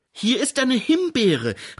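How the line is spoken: Called out. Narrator (German): rief Grete

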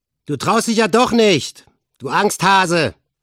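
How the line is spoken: Called out. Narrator (German): rief Olaf, ihr Anführer

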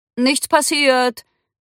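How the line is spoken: Calling out. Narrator (German): rief er Cindy zu

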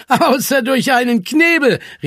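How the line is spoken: Called out, laughing. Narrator (German): rief Zwolle und lachte

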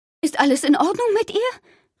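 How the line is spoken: Called from a distance. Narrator (German): rief Daddys Mutter aus sicherer Entfernung

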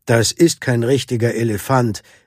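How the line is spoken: Audience member calling out. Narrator (German): rief jemand aus dem Publikum

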